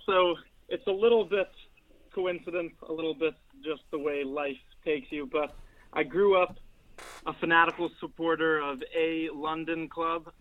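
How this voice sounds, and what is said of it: American accent. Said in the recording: “a slightly different accent to what we see round the mean streets ... from across the pond from the United States, from America”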